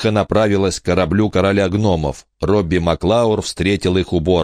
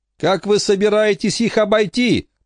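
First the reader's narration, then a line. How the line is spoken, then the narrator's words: Shouting. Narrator (Russian): прокричал Майкл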